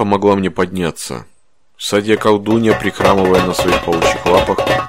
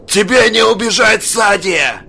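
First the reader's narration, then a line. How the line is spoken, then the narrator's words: Hoarse, failed shout. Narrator (Russian): Пытался закричать я, но голос мой охрип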